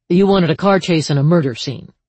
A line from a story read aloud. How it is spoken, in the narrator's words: she said dryly